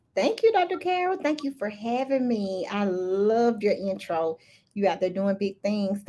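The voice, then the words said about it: Strong Southern American accent. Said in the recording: “Southern girl. I'm sure they can't tell from my accent, but super Southern.”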